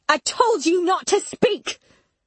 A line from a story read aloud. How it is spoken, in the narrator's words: I screamed, my body shaking with anger